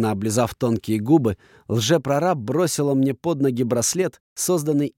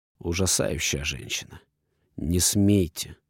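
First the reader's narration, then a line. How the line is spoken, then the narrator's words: Through gritted teeth. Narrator (Russian): процедил я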